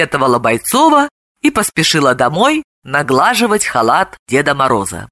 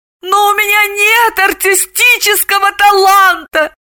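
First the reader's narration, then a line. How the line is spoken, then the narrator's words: Wailed. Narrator (Russian): взвыла Далила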